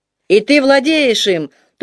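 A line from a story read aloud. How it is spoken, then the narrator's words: Ecstatic shouting crowd. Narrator (Russian): восторженно заорали наемники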